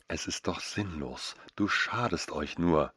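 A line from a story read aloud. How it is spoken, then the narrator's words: Soft gentle murmur. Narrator (German): raunte ich ihr mit meiner sanftesten Stimme zu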